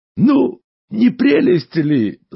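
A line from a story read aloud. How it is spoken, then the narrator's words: Laughing. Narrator (Russian): засмеялся дядя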